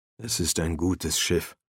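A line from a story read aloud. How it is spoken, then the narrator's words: Muttered. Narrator (German): murmelte er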